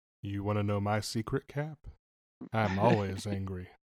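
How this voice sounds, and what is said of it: Smooth radio announcer voice. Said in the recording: “Such a good radio voice... It was like an NPR voice there.”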